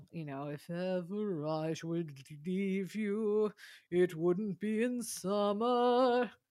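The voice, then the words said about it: Imitates another person's singing voice. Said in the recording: “I'm going to be the first female Robert Goulet impersonator.”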